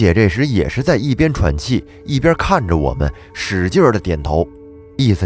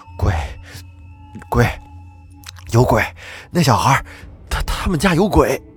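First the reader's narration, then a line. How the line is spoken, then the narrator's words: Panting, frightened. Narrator (Chinese): 海哥边喘气边说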